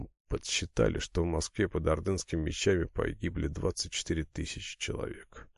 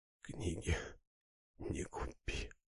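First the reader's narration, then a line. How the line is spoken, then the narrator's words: Whispering repeatedly. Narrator (Russian): губы все шептали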